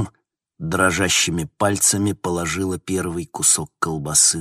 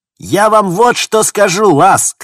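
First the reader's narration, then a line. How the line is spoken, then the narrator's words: Shout. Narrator (Russian): крикнула Стил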